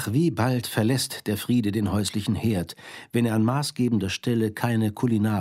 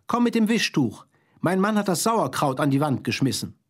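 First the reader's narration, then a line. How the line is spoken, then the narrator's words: Woman's voice calling. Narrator (German): ruft eine weibliche Stimme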